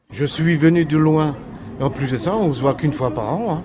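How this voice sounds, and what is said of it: Santa Claus with slight Alsatian accent. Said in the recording (French): “le Père Noël a un petit accent alsacien... il est moitié Pôle Nord, moitié Colmar”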